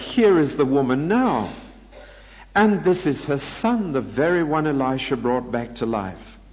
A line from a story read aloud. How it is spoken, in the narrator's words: Gehazi exclaimed